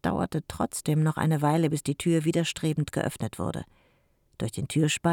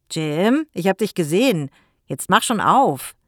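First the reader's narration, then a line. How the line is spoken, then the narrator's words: Calling through closed door. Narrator (German): rief er durch die geschlossene Tür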